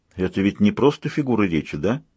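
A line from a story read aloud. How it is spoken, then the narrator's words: Lifeless voice. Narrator (Russian): спросил он каким-то безжизненным голосом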